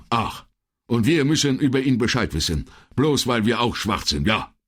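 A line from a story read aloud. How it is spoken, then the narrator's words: Thin man calling out. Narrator (German): rief der Dürre, der vorhin so schroff zurückgewichen war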